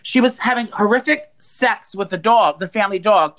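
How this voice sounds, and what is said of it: Loud, screaming voice. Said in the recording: “You're screaming ... My God, you're screaming ... You're screaming sex with the dog ... Can you not scream now”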